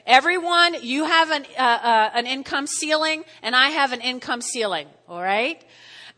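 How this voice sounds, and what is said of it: New Jersey accent. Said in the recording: “my Jersey accent”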